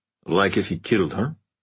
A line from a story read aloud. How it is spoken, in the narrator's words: murmured Stefan